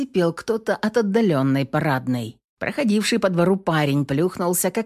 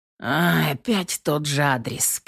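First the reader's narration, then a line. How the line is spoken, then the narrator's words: Grumbling heavyset young man. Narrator (Russian): пробурчал молодой, но грузный мужчина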